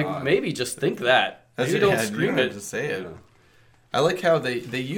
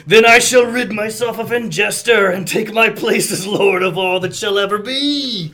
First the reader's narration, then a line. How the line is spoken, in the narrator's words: His eyes gleam with malevolence, and he roars